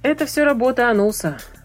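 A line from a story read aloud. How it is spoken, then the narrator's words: Grumbling. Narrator (Russian): ворчал Кирон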